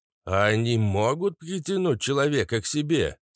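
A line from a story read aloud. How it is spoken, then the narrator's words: Plain. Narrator (Russian): спросил папаша Кац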